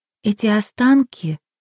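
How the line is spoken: Soft. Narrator (Russian): мягко начала Джилл

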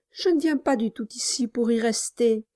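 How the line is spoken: Timid. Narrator (French): répondit timidement Nelly

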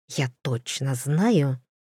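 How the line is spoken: Whisper. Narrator (Russian): шептал Бивуар, хихикающий

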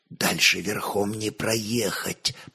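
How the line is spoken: Nearly silent whisper. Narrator (Russian): почти беззвучно шепнул десятник

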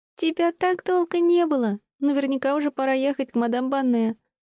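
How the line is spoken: Laughing. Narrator (Russian): Стелла рассмеялась

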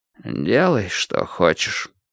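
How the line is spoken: Gloomy. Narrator (Russian): уныло сказал Кораблев

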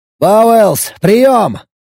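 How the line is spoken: Barked over comm channel. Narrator (Russian): рявкнул я внутреннему каналу связи с капитаном

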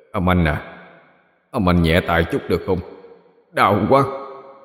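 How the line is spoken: Lowered voice. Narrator (Vietnamese): hạ giọng nói

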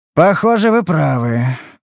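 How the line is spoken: Sighing. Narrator (Russian): вздохнул он

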